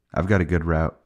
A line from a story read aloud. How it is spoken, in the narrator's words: he said, yawning